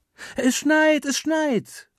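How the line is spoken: Calling out. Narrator (German): ruft Meli

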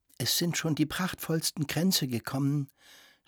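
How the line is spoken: Quiet. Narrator (German): sagte Frau Permaneda leise

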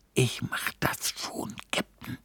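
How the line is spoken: Whispered. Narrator (German): flüsterte

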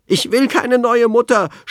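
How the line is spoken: Shouting. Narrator (German): schrie Anton

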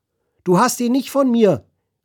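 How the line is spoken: Crane calling out. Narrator (German): rief der Kranich

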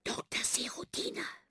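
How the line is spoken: Group whisper. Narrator (German): flüstern wir

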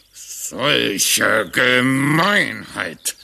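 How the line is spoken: Groaned. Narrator (German): stöhnte Frederik

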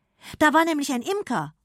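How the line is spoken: Calling out. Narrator (German): ruft sie

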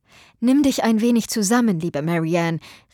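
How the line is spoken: Called out. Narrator (German): rief

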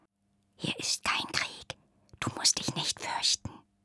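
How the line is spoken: Whispered. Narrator (German): flüsterte sie

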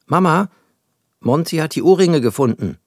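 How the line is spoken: Called loudly. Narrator (German): rief Max laut

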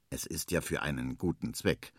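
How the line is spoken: Quiet murmur. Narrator (German): murmelt leise

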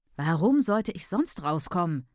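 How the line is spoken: Tall woman snapping. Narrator (German): schnauzt die große Frau

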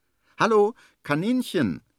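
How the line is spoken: Calling. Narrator (German): ruft

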